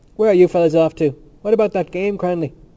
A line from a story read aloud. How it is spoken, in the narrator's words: They parleyed in shouts across the still air